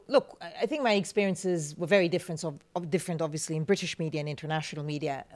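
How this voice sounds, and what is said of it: Foreign accent. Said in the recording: “how was it to have an accent and being a newsreader ... To have a foreign accent.”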